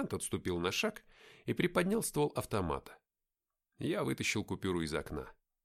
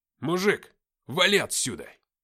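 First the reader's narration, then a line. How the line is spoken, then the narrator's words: Growl. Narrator (Russian): прорычал сержант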